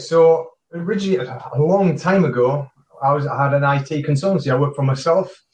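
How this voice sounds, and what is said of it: Newcastle English accent. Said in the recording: “accent is a Newcastle up north in England”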